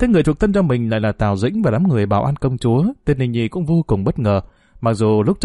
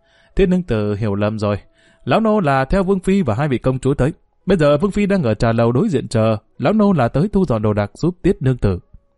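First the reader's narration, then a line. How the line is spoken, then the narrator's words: Old servant laughing heartily. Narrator (Vietnamese): lão Phúc liền bật cười ha hả đáp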